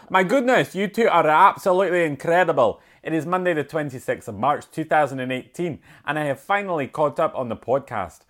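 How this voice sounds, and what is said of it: Put-on Scottish accent. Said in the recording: “it'll be a Scottish accent... Let me try and get into a wee bit of Scottish”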